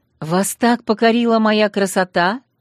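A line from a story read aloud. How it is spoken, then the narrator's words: Nearly shouted. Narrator (Russian): почти выкрикнул герцогу маркиз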